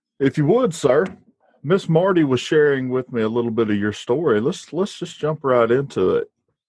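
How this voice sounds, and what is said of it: Southern American accent. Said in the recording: “in my wonderful Southern accent”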